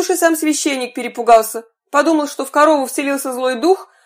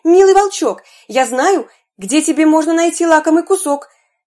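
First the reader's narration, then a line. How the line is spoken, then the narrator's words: Muffled shout from within. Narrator (Russian): закричал волку из брюха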